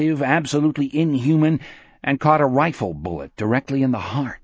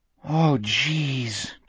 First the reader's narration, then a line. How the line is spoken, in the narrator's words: Jack groaned